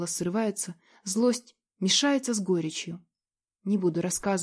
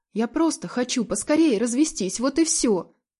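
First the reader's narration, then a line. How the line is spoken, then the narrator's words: Sharp curt tone. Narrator (Russian): резко бросаю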